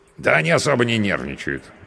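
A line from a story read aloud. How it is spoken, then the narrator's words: Snorting. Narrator (Russian): хмыкнул мой спутник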